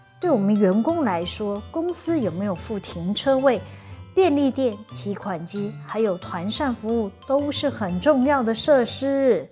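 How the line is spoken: Sighing. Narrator (Chinese): 伊小姐又叹了口气说

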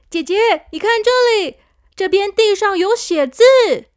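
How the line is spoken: Sudden shout. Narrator (Chinese): 小扑突然大叫

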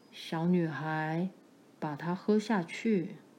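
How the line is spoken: Low, gentle voice. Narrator (Chinese): 用低沉的声音温柔地对他说

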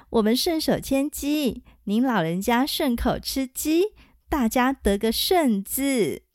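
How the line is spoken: Laughing. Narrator (Chinese): 黄蓉笑着说

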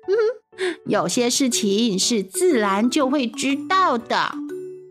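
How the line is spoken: Laughing. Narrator (Chinese): 玛丽莲笑着说

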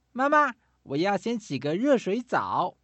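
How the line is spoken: Loud shout. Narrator (Chinese): 小企鹅大声喊道

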